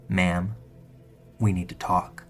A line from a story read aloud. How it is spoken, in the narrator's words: He says in a low, calm voice